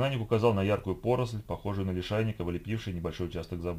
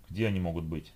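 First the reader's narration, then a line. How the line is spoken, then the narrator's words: Calm question. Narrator (Russian): спокойно спросил Гудвин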